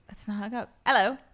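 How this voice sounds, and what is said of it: English accent. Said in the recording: “you can do a better English accent than I can”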